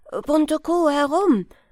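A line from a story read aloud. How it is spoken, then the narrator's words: Called out. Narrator (German): Er rief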